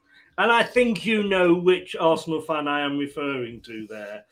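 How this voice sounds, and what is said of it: Usual voice. Nothing is said of it.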